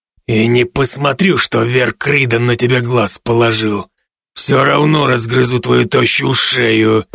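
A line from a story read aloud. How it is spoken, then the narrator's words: Growling. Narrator (Russian): прорычал Хендер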